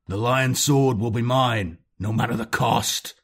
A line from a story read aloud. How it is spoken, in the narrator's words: he roared in rage